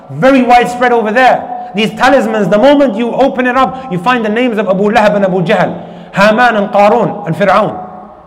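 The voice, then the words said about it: Shouting, raised voice. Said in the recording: “might be shouting a little bit today, raising my voice”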